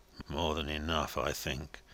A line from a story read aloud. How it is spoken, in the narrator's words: muttered Joey Ladle, shaking his head solemnly